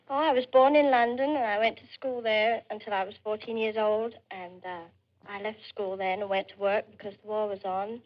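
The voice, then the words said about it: Slight English accent. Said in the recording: “You have a slight accent... I'm English.”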